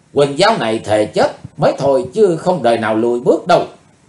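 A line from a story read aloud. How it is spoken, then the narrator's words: Furious scream. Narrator (Vietnamese): Không còn dằn được cơn giận dữ nữa, Quỳnh Dao hét lên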